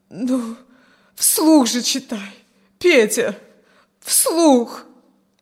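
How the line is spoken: Moaning. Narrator (Russian): Но поскольку он не произносил ни слова, простонала

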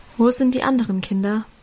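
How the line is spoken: Plain question. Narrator (German): fragte er

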